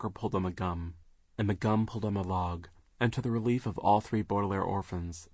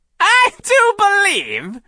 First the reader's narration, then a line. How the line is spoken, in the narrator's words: she said, cackling